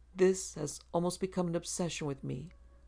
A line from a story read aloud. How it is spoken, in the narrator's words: murmured Mr